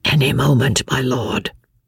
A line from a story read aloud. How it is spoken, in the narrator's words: whispered Jellyband in reply